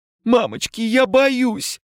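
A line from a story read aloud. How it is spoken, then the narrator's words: Sobbing, frightened. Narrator (Russian): всхлипывала барышня с ангельскими крыльями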